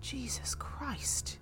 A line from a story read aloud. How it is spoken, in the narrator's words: Teresa breathed to her mother